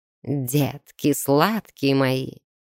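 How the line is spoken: Snakelike hiss from outside. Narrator (Russian): змеей прошипели снаружи

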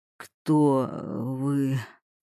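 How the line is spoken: Barely audible breath. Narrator (Russian): выдохнул он еле слышно

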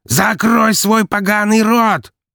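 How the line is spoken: Yelling prosecutor. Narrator (Russian): заорал прокурор

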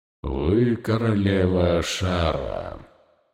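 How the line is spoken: Smooth, articulate voice. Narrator (Russian): сказал он гладким членораздельным голосом, так не похожим на гортанную речь Монорота или шипение Хакара

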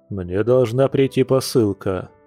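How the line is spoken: Deep bass voice. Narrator (Russian): пробасил спаситель

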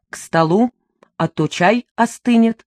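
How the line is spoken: Abrupt change of topic. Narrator (Russian): резко меняя тему, добавил

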